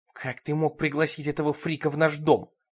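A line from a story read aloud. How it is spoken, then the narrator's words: Hiss. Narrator (Russian): шипела Бет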